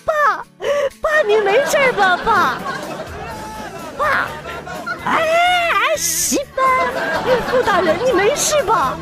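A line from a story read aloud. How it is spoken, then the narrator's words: Sobbing cry. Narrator (Chinese): 女朋友大哭喊道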